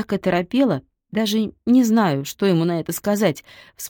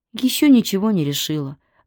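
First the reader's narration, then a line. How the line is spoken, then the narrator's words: Sigh. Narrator (Russian): вздохнула Майя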